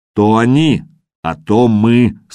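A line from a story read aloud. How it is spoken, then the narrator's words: Stern blacksmith. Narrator (Russian): строго сказал коваль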